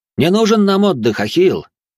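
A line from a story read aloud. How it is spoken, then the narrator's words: Cheerful shout. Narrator (Russian): весело выкрикнул один из беженцев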